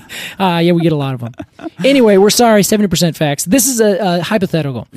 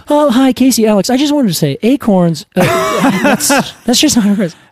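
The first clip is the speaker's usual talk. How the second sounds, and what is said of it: Imitates a listener's voice. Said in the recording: “such a good impression of that”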